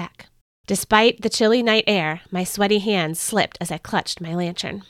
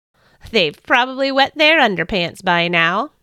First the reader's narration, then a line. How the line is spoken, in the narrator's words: I chuckled to myself